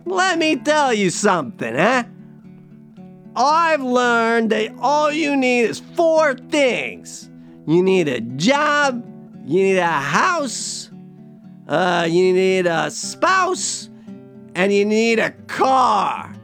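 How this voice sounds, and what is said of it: Put-on East Coast American accent. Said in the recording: “let's just give him this East Coast accent because it's more fun”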